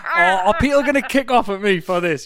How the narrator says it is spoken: You laugh

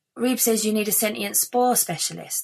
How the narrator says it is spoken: the woman said

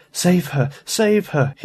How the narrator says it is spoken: he moaned

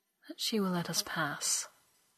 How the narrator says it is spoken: said softly

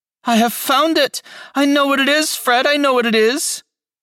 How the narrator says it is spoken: the plump sister cried out

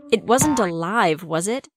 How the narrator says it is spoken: I laughed nervously at myself

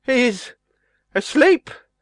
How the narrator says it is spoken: he stammered

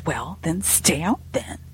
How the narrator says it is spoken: under my breath

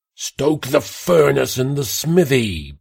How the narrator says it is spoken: Pastor Gilliam shouted

